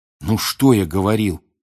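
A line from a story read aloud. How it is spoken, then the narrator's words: Whisper. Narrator (Russian): прошептал Рон Гермионе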